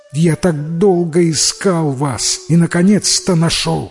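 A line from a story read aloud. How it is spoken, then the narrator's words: Cry of joy. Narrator (Russian): Вскрикнула мать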